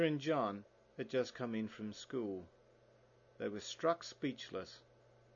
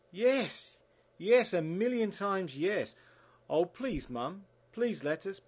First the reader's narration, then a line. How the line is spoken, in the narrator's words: Peter shouted